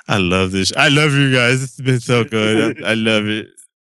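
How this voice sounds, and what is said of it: Drunk-sounding, gushing speech. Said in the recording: “I'm not even drunk and I'm talking like a drunk guy.”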